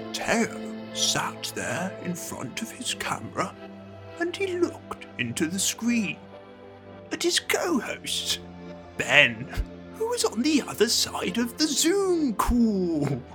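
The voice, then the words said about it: Wet-mouthed video game narrator voice. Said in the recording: “that was a good impression ... you're the narrator of The Eternal Cylinder ... The wet-mouthed narrator ... He did sound recognisable”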